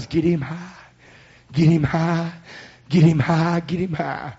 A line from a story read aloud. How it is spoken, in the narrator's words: all the hell cries